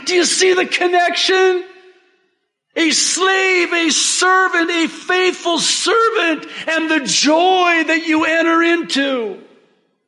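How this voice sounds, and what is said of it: Yelling, loud emphatic preaching. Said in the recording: “I'm sorry I'm yelling”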